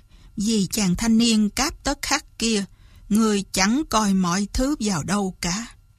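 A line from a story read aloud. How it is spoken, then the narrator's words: Sighing, soft. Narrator (Vietnamese): Kế Lão thở dài một tiếng, khẽ nói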